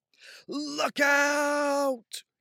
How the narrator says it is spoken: Gabe cried

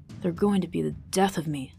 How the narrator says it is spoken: Vivin muttered under his breath

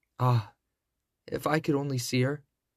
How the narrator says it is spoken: sighed Cinderella

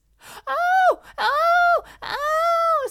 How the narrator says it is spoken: squeaked the mouse

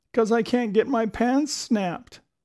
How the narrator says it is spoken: he wailed

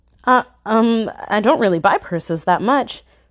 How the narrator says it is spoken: I stammered

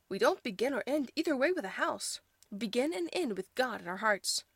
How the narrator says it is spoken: cried Ma

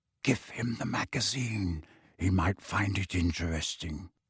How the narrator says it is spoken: Kingsley added in a whisper

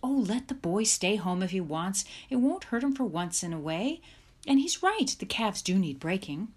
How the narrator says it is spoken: Mother exclaimed

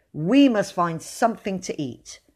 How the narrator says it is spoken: said William firmly

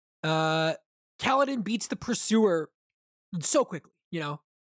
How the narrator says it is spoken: I snapped

